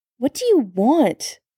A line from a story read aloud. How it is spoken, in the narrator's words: Sam snapped